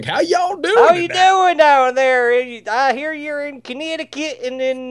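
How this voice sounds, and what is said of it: Poor imitation Texas accent. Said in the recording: “Yeah, I don't do a Texas accent very well.”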